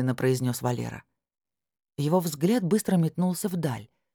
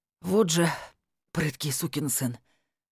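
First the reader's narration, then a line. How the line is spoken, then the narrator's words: Strained wheeze. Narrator (Russian): Согнувшись пополам, прохрипел Валера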